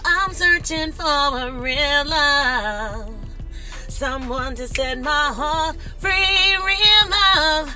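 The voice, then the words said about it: Singing voice cracking and straining. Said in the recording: “You see how my voice cracked? ... I can hit certain notes, but woo, some of those notes, my voice is straining.”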